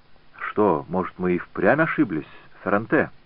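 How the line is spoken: Quiet question. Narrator (Russian): тихо спросил Фракассо

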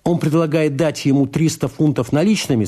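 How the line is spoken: Plain. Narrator (Russian): сказал Фридман

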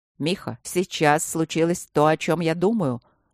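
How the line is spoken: Sharp question. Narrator (Russian): резко спросил Трот

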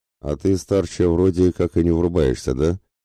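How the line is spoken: Bitter scoff. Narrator (Russian): желчно хмыкнул Бурзаган

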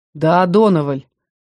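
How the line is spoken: Gloomy agreement. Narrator (Russian): мрачно поддержал брюнетку Дик

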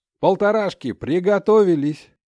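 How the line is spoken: Pilot's shout. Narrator (Russian): крикнул пилот

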